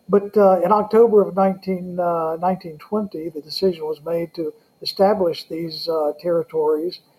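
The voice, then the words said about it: Southern American accent. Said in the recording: “I'm from the South, with the accent”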